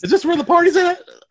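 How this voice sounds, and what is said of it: Silly comic character voice. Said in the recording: “my penis impression”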